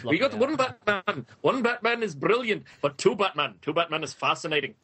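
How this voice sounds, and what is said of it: Attempted Scottish accent impression. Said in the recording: “my Grant Morrison impression ... I can't do Scottish”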